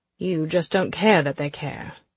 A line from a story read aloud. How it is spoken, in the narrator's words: Nicholas says dryly